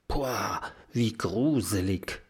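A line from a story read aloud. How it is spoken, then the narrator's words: Low murmur. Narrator (German): raunt Mathilda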